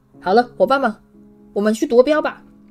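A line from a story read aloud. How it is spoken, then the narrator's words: Hushed call. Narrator (Chinese): 压着嗓子朝他喊道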